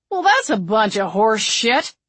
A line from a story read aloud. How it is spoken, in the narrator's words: Duffy grumbled